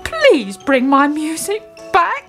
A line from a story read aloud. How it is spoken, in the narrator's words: he pleaded